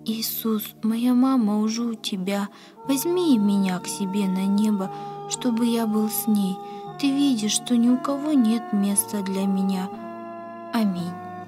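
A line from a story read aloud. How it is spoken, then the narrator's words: Sighing whisper, boy. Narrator (Russian): Мальчик вздохнул и прошептал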